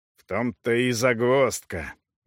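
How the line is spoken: Anxious grumble. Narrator (Russian): беспокойно проворчал пан Повондра

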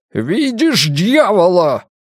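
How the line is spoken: Shouting from above. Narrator (Russian): кричал он сверху

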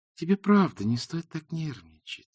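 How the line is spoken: Sweet purring voice. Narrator (Russian): сладким голосом промурлыкала она

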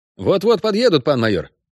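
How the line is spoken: Brisk cheerful report. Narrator (Russian): бодро отрапортовал тот

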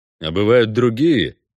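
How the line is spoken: Ironic snort. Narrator (Russian): иронически хмыкнул Геральт

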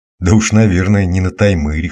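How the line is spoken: Snort. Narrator (Russian): хмыкнул я

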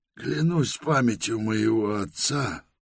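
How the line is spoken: Sad. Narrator (Russian): печально продолжал он

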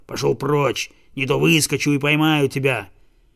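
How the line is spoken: Dog's growl. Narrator (Russian): цепной пес … прорычал

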